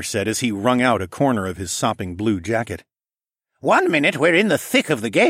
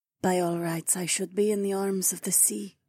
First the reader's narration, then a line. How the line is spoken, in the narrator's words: she breathed